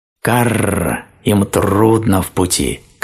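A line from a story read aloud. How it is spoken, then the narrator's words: Burring crow's voice. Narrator (Russian): картавила ворона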